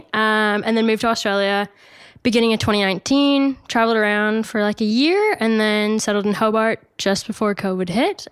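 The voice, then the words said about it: North American, Canadian-sounding accent. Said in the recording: “it's not an American accent, everyone ... for those that say I have an American accent, please don't. I prefer the Canadian in me.”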